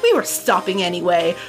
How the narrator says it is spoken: Renee said curtly

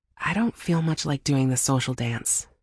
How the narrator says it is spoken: muttered

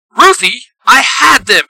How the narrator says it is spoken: Pink Ranger shouts

